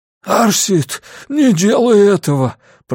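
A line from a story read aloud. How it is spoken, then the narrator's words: Hoarse rasp. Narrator (Russian): прохрипел Грюнвальд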